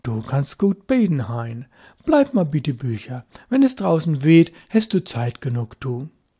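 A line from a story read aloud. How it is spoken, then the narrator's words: Said approvingly. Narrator (German): sagte anerkennend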